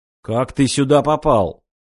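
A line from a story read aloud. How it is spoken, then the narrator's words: Stern question. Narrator (Russian): строго спросил Москвин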